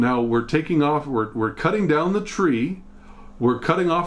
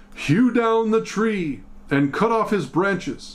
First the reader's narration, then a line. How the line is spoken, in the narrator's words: he cried aloud and said